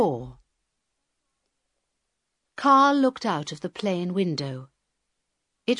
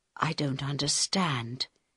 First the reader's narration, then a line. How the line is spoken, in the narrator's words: he said quietly in Harold's ear